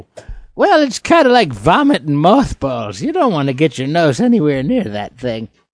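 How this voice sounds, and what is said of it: Put-on accent. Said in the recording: “I'm going to lose my accent.”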